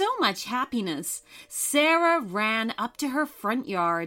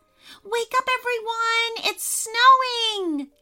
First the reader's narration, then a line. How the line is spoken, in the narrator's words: shrieked